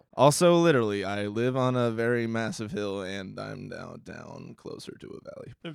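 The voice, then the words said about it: Deep creaky voice trailing off. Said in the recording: “you just creaked into it ... I have a very deep voice ... when I don't throw as much energy into it, it kind of just like falls apart”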